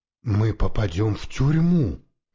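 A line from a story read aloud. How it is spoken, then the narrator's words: Sighing. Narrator (Russian): вздохнул я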